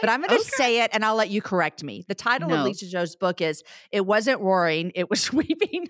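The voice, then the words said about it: Southern American accent. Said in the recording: “I just think it's a Southern accent.”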